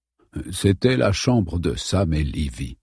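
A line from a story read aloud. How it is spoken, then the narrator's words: Murmured. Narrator (French): murmura-t-il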